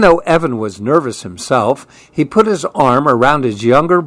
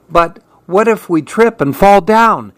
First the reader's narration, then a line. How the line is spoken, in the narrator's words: asked nervously